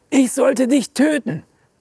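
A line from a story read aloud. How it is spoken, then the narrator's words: Rough grating voice. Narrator (German): Die Worte klangen so rau, als strichen sie über Felsen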